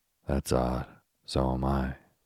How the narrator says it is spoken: croaked Professor Biggleswade

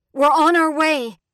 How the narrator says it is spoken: Alma shouts

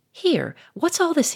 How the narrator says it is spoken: he cried

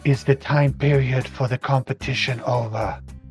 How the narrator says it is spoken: Casilla will whisper

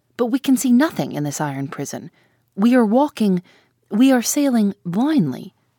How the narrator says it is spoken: exclaimed the harpooner

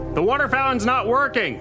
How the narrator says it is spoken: shout

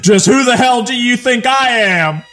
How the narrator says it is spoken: he yelled

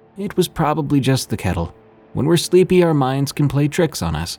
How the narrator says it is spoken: dismissed me kindly, saying

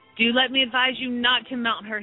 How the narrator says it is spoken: he said

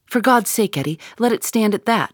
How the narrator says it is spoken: he cried

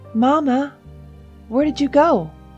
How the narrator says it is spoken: she called out

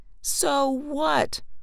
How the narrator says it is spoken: a neighbor yelled back

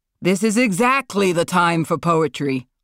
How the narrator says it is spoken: Marlon shouted

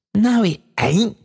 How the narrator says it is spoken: cried Meg in a burst of delight

